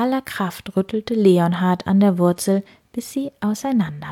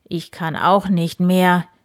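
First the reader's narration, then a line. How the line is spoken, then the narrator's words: Breathless groan. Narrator (German): stöhnte Graf Eberhard ... atemlos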